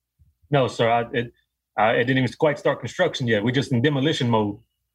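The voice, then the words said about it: Speaks with a noticeable accent. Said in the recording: “you got a sweet ass accent.”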